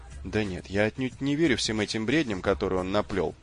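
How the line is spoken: Hurried. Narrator (Russian): добавил Эрц торопливо

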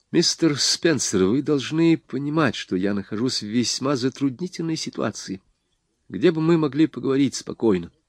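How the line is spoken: Quiet young man. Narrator (Russian): Юноша сказал тихо

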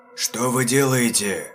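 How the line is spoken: Hoarse, strained question. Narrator (Russian): севшим голосом спросил он

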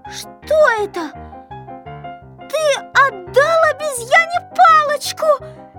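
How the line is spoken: Shouting. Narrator (Russian): закричала Кнопочка

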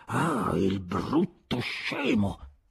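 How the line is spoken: Annoyed muttering. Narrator (Italian): borbottare

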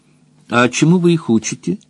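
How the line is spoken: Plain question. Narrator (Russian): спросила Роза Рык

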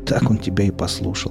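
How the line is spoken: Smirking grunt. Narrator (Russian): хмыкнул мытарь

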